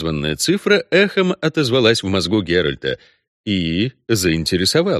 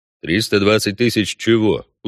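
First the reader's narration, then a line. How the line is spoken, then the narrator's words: Even-voiced clarification. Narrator (Russian): уточнил ведьмак ровным голосом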